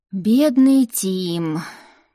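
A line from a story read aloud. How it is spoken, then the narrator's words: Groaning. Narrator (Russian): простонал Деймон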